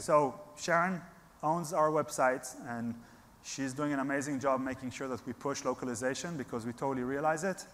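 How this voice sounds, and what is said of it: Non-native foreign accent. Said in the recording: “You can hear from my accent that I'm not from here”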